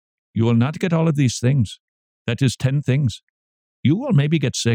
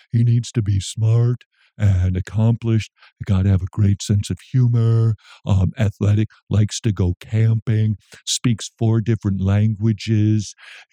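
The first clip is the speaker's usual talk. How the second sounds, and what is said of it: Imitates a woman's voice. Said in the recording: “So this is my impersonation of a woman, apparently.”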